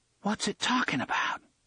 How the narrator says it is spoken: she hissed

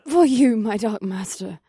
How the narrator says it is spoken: gasped

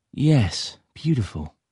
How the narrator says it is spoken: he sighed

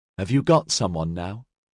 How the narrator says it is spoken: She asked quietly

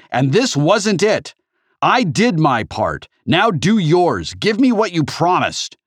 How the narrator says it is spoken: Sorrento shouted

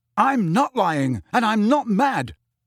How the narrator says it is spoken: Harry told her, his voice rising to a shout

